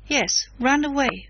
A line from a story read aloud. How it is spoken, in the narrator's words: repeated fiercely